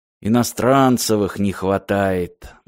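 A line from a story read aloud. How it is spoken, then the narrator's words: Gloomy, to himself. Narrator (Russian): мрачно сказал Мартин самому себе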